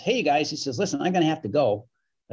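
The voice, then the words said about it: Imitates another person's voice. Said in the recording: “That's my best Jay Leno imitation.”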